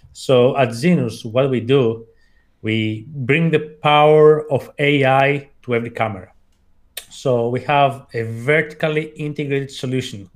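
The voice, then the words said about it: Greek-accented English. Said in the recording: “I was born and raised in Athens, hence the accent.”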